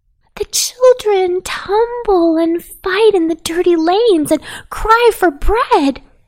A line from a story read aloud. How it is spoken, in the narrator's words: cried Poppy Pink